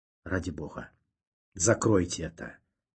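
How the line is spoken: Nasal mutter, nose pinched. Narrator (Russian): Зажав нос, пробормотал Ванзаров

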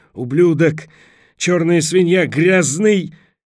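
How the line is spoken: Choking, gurgling shouted curse. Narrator (Russian): Сквозь наполненные водой легкие Борис пытался выкрикнуть проклятие

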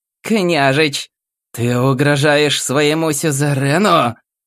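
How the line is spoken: Growled. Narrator (Russian): прорычала императрица

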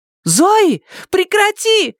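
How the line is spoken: Shout. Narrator (Russian): закричала Сьюзен

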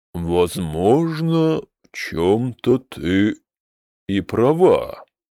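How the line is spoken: Slow, measured agreement. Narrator (Russian): медленно кивнул Алвентус

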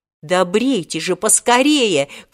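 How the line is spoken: Wary shout. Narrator (Russian): крикнул Волька, опасливо глядя на соседнее кресло

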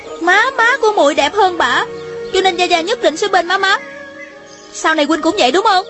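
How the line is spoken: Angry question. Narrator (Vietnamese): Thanh Thanh giận dữ hỏi

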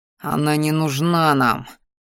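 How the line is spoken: Growling, persuading. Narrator (Russian): вновь зарычал я, внушая своему ящеру, пытаясь убедить упрямого

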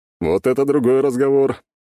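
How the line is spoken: Laughing. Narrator (Russian): засмеялся князь Света

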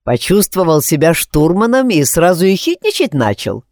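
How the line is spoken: Smirking. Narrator (Russian): хмыкнул я

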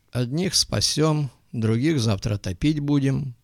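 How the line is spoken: Grim remark. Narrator (Russian): мрачно заметил док

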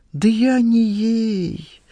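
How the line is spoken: Heavy sigh. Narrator (Russian): Скамейкин тяжко вздохнул

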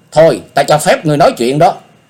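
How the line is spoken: Angry speech. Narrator (Vietnamese): Diệp Linh Tô tức giận nói

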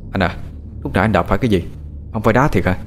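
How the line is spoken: Soft question. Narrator (Vietnamese): thằng Tế hỏi khẽ

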